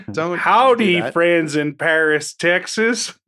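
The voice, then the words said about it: Put-on Texan accent. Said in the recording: “This accent is like is evolving in real time here.”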